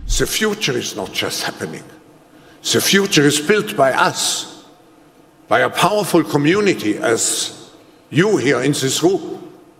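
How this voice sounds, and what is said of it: Thick German accent. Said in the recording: “with a very thick Germanic accent, which makes it really weird and creepy”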